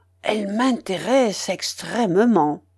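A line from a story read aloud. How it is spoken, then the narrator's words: Whispering. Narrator (French): me dit tout bas M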